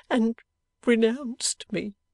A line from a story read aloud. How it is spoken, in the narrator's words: sobbed Lizzie